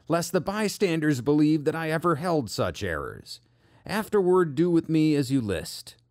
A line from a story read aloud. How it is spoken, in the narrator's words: cried Hus with clasped hands